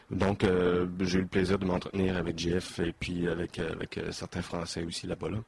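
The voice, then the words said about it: Québécois French accent. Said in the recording (French): “l'animateur, ait l'accent québécois ... l'animateur a un accent québécois”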